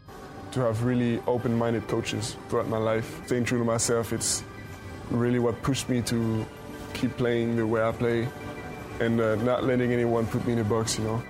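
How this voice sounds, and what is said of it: English with a foreign accent. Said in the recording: “he has that adorable accent”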